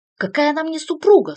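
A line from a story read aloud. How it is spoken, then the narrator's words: Shouting. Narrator (Russian): снова закричал Артью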